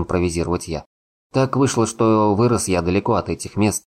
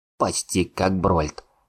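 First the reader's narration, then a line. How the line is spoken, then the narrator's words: Hmph. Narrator (Russian): хмыкнул Атхур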